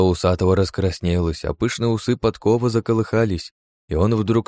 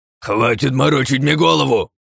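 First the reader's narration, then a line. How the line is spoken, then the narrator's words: Roaring man. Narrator (Russian): взревел усатый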